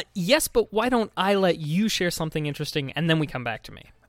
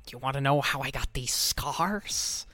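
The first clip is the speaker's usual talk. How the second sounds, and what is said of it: Good impression of the Joker. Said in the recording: “That's a pretty good impression.”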